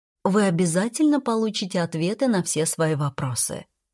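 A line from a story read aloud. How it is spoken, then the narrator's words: Calm, ingratiating. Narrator (Russian): спокойно, вкрадчиво произнесла Ширали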